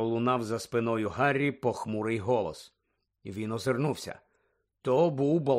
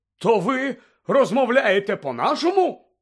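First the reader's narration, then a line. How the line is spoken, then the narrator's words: Indignant exclamation. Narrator (Ukrainian): обурено вигукнув Фадж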